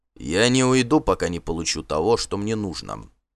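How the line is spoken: Calm reply. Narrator (Russian): спокойно ответил Торбранд

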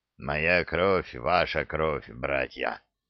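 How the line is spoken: Snarling orc's panting wheeze. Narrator (Russian): прохрипел оскалившийся орк, тяжело дыша

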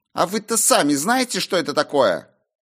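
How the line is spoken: Sharp retort. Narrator (Russian): резко бросила дочь хозяина ливня

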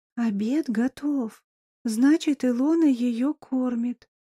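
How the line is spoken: Whispered. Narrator (Russian): шепнула тетя Мила

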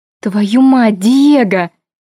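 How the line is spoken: Exclamation. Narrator (Russian): воскликнула я

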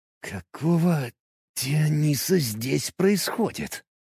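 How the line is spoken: Breathless exhale. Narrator (Russian): выдохнул я

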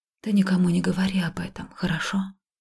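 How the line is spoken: Whispering. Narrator (Russian): прошептала

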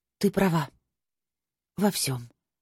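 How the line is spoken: Breathed out. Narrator (Russian): выдохнула я

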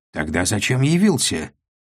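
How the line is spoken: Sharp, disappointed dealer. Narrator (Russian): Так же резко ответил разочарованный барыга

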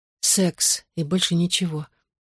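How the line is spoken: Barely audible repetition. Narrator (Russian): едва слышно повторила я

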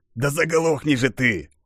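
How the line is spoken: Hissed. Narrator (Russian): прошипел он

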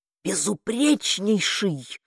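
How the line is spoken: Whispered interruption. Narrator (Russian): шепотом перебил Басотто

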